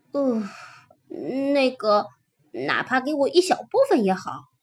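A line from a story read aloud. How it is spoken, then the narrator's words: Disappointed sigh. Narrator (Chinese): 图图失望的叹气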